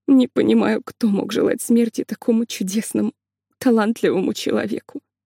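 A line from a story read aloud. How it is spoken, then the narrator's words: Muttering under breath. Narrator (Russian): бормотала себе под нос Ольга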